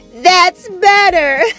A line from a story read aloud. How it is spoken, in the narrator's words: laughed and said